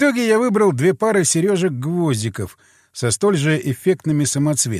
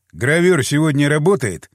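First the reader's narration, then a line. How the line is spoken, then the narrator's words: Plain. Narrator (Russian): спросил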